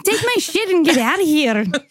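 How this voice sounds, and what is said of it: Poorly done put-on accent. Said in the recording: “That was not a good accent.”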